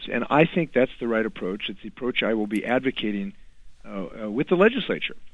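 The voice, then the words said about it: Slightly hoarse, throaty voice. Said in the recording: “I've got a little frog in my throat”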